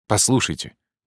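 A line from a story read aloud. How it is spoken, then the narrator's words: Rapid speech. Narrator (Russian): игрок быстро начал говорить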